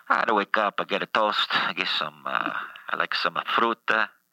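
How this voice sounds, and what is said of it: Put-on Italian accent. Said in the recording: “such an Italian accent”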